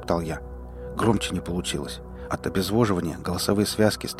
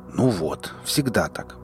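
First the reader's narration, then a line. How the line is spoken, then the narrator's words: Grumbling. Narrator (Russian): проворчал Шрам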